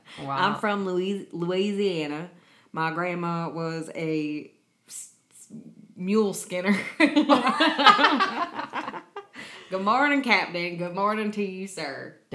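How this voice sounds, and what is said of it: Thick put-on Southern accent. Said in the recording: “a thick ass Southern accent and be like, no, I'm from Tennessee, Louisiana.”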